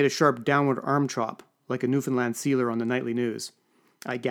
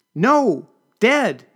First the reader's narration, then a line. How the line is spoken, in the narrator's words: she shouted